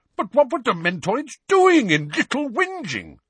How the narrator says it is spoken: said Uncle Vernon in an outraged tone

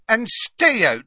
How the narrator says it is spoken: shouted Madame Rosmerta

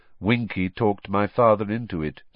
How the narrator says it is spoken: said Crouch, still in the same monotonous voice

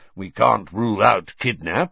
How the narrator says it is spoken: growled Moody

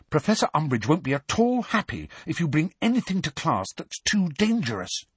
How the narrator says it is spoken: said Hermione urgently, dropping all pretense

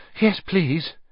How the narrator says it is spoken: Harry panted

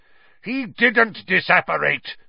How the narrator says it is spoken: Snape roared, now very close at hand

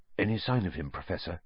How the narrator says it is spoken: asked Percy in a whisper

